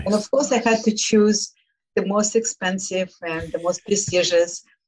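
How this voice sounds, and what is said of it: Speaks with an accent. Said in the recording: “my accent”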